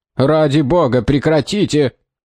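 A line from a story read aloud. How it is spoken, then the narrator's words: Yelled. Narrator (Russian): заорал Джозая Хэтч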